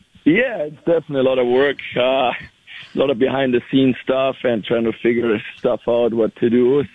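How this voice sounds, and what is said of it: Strained voice from yelling. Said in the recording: “my voice is a little bit in one here, so I'm not used to yelling that much on the ice”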